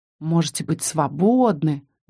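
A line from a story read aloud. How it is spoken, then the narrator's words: Mutter. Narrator (Russian): бормотала я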